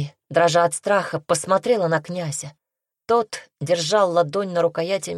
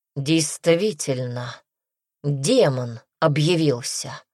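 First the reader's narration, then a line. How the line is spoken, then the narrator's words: Cold confirmation. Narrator (Russian): Холодно подтвердил Дарсу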